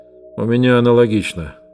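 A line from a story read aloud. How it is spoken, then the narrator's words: Grumbling mutter. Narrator (Russian): буркнул Скотч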